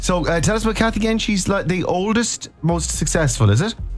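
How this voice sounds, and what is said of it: Usual voice. Nothing is said of it.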